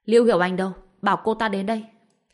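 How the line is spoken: Loud shout. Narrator (Vietnamese): Trương Hoa Bân còn hét to một câu

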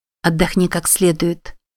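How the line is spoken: Plain. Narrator (Russian): сказала она

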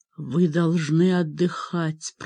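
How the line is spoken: Whisper. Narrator (Russian): прошептал

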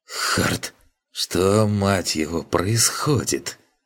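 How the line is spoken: Strained, forced out. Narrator (Russian): выдавил из себя

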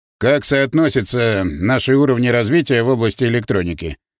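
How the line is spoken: Plain question. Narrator (Russian): спросил президент

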